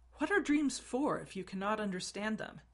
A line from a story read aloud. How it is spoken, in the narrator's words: exclaimed, frustrated